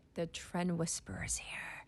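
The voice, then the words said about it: Whispered. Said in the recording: “I just love whispering that every single time”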